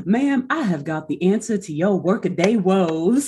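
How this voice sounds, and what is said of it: Relaxed Southern snake-oil salesman voice. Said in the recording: “In a total, like, Southern 1950s, shall we say, like, snake oil salesman voice. AKA, honestly, just like a chilled out, an even more chiller, relaxed version of Matthew McConaughey's voice ... That was a great impression.”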